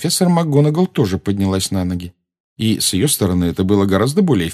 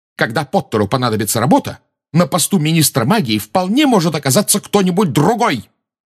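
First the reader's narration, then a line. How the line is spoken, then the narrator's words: Shouting. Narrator (Russian): выкрикнула МакГонагал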